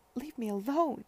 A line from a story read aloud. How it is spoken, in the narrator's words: she cried